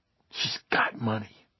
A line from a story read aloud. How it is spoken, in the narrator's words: Bobby almost spat